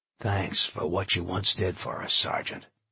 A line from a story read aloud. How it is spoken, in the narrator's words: he whispered